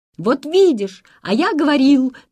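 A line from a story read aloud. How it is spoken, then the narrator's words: Children shouting over each other. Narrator (Russian): Наперебой закричали чуть ли не все ребята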